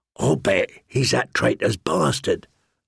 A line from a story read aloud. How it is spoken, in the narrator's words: Lummy said one night in a harsh voice, so Gendry would not hear